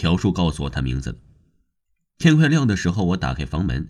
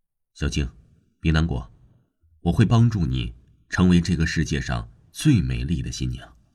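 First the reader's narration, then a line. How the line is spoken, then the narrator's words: Soft. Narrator (Chinese): 轻声的说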